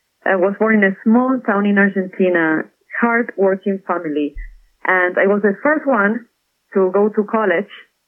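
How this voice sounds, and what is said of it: Argentine accent. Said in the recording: “I'm from Argentina. That's where the accent is from.”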